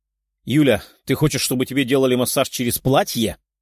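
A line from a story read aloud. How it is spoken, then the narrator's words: Growled. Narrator (Russian): прорычал Герман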